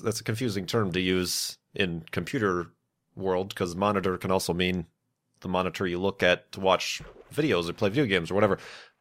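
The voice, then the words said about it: Slightly nasal, congested voice. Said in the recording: “I can hear through my headphones that my voice is a little bit on the nasally side ... where I've been sick”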